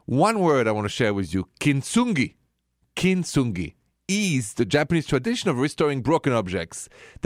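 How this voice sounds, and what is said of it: French accent. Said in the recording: “my accent ... is French, straight from Paris”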